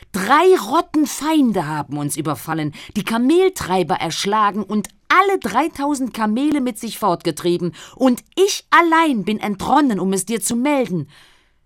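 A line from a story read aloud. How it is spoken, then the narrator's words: Called out. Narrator (German): rief er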